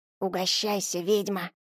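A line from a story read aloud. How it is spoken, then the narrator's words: Whisper. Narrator (Russian): шепнул Семёныч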